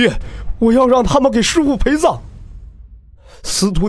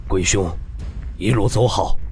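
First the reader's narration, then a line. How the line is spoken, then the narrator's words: Low, grave. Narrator (Chinese): 沉声道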